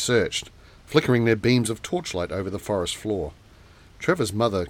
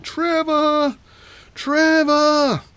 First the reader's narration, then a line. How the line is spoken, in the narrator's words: search party wailing